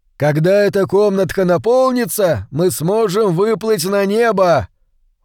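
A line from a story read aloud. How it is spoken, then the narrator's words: Shouted. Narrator (Russian): Хилала закричал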